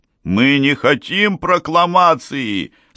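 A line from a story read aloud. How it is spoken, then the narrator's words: Shouted. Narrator (Russian): закричал Тартаре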